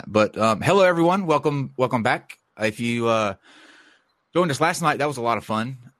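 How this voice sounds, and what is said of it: Stuffy, congested voice. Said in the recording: “cold, so I sound very stuffy”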